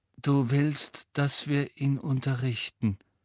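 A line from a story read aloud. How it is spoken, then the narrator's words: Hollow voice. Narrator (German): sagte Harry mit hohler Stimme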